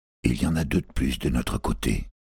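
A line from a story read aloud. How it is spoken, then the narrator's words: Murmur. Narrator (French): murmura-t-il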